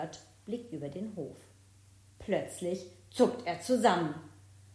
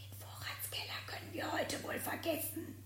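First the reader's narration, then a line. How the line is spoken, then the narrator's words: Whisper. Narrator (German): Leise flüstert er Isabella zu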